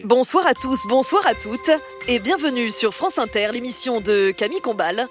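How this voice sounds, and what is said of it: Mock radio journalist voice. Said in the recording (French): “tu peux me faire ta voix de journaliste ... Tu veux que je fasse ma voix de journaliste?”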